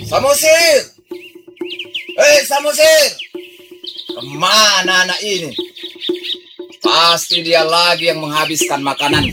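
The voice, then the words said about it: Shouting loudly. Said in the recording (Indonesian): “Kenapa berteriak-teriak?”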